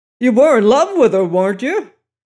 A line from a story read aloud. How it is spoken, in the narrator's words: he cried